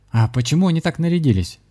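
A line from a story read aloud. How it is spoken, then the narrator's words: Plain question. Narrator (Russian): спросил Григорий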